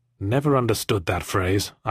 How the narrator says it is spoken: I muttered

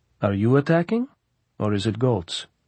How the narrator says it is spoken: Kharkov asked smoothly

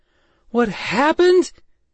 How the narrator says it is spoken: she screamed

